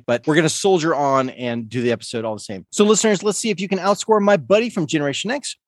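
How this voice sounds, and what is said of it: Weird, cold-affected voice. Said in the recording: “I am getting over a cold. If my voice sounds weird this episode”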